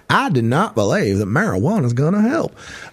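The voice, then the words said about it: Jeff Sessions impression, Southern accent. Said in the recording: “I could do this whole thing as Jeff Sessions.”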